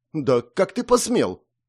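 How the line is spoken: Furious shout. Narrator (Russian): придя в себя, выкрикнула разъяренная девушка

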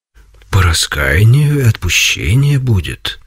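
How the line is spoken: Gentle reply. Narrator (Russian): ответил ласково Серафим

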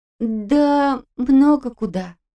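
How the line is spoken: Unsure. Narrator (Russian): неуверенно ответила Настя

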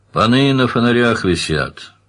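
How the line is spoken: Snorting general. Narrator (Russian): хмыкнул генерал

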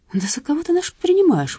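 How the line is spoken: Indignant speech. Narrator (Russian): возмущенно проговорил Бахчинян

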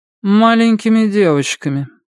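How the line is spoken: Lifeless voice. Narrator (Russian): безжизненным голосом промолвила Мэри

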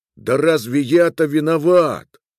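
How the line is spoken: Exclaimed. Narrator (Russian): воскликнул Миловыш

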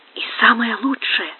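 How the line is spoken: Muttered. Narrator (Russian): пробормотал Тито

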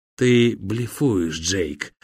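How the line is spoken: Hoarse whisper from behind. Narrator (Russian): донесся из-за спины хриплый шепот

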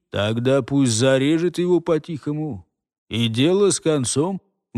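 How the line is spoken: Grim, curt. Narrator (Russian): мрачно отсек голос

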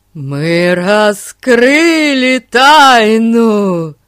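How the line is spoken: Joyful proclamation. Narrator (Russian): радостно провозгласил Эрн

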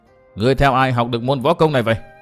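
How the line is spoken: Shouting again. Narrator (Vietnamese): Hắc Cương Thi lại quát tiếp

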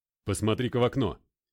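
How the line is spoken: Loud. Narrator (Russian): громко произнес МакГрей

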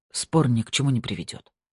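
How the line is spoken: Male mutter. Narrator (Russian): пробормотал он

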